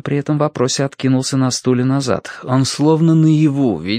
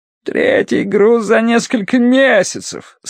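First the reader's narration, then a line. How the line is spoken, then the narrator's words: Groaning over lost goods. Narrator (Russian): стонал Талли по поводу утерянного товара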